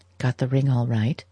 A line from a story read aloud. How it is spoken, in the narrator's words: whispered young who was inexperienced in the duties of a best man and awed by the weight of his responsibility